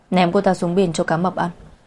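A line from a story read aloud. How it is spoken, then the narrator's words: Cold and disgusted. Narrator (Vietnamese): Mục Bắc Thừa chán ghét, lạnh lùng nói với trợ lý Từ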